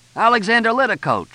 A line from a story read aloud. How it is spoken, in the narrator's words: shouted one cop